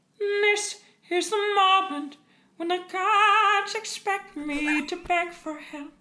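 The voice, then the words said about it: Imitates a singer, back-of-throat voice. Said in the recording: “can we get a little Heather Headley? ... just all in the back of the throat. ... the little Celine came in there ... very lifted ... in the back of the”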